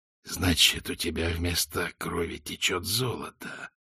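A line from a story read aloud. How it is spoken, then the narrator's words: Hissed. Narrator (Russian): прошипел Визель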